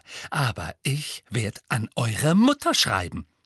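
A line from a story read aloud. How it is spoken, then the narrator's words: Voice trembling with anger. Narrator (German): sagte sie mit zornbebender Stimme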